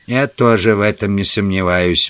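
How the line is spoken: Gloomy. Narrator (Russian): мрачно проговорил Саммерли

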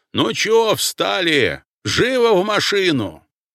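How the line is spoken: Sudden yell, familiar voice. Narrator (Russian): На чистом русском, да еще и очень знакомым мне голосом, вдруг заорал

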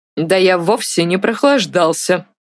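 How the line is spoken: Angry reply. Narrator (Russian): сердито ответил Артур

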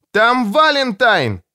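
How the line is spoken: Yelling. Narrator (Russian): заорал Том

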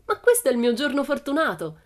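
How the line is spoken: Exclaiming. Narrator (Italian): esclamò

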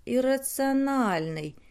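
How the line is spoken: Thoughtful drawl. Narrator (Russian): задумчиво протянул Драмокл

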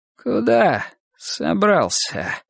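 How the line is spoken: Hoarse. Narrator (Russian): хрипло выговорил он

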